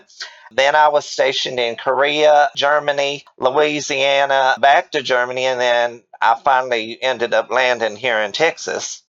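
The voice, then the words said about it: Slightly exaggerated Southern US accent. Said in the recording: “I've lived in the South so long I feel like I own it ... So this accent that you have, is that your day-to-day speaking voice? ... we will admit to a tiny bit of exaggeration where that goes ... a deep and abiding love for Southern women”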